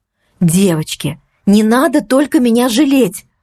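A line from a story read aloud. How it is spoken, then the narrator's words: Exclaimed. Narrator (Russian): воскликнула я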